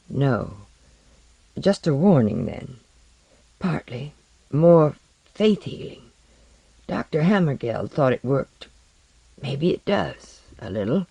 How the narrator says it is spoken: he replied, in the dry, cautious tone they were now using to each other

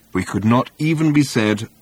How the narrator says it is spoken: replied Ford

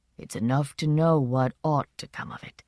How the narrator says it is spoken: said, gravely agreeing

